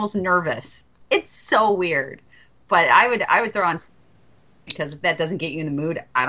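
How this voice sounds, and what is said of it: Usual voice. Nothing is said of it.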